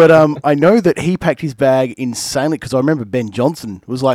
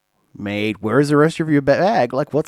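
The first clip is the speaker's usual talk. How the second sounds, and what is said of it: Bad imitation of another person's accent. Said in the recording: “worst accent ... it was terrible”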